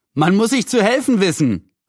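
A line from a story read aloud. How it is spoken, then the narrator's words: Called out. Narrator (German): rief Julian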